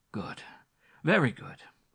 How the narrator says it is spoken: he exclaimed again, to recover his breath

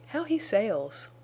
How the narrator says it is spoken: exclaimed Bess

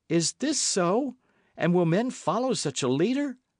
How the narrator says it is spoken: cried Richard

